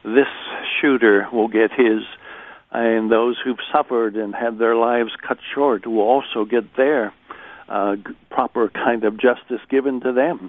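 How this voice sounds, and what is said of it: American accent. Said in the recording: “as listeners can hear your American accent, American by birth”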